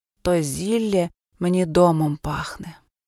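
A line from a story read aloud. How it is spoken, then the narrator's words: Sighing. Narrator (Ukrainian): зітхнула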